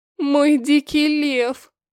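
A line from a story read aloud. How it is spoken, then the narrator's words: Moaned. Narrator (Russian): Простонала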